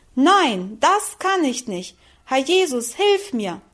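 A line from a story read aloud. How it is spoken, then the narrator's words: Loud cry. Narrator (German): rief sie laut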